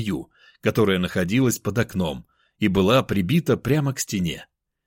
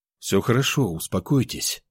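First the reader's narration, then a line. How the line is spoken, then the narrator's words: Calm. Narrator (Russian): спокойно сказал я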